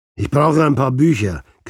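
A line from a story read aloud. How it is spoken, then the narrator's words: Growled. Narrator (German): knurrte er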